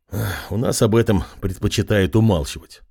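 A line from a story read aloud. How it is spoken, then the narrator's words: Sighed. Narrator (Russian): вздохнул Андрей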